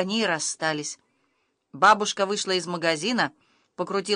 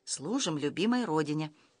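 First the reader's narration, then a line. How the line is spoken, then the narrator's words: Quiet answer. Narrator (Russian): тихо ответила подушка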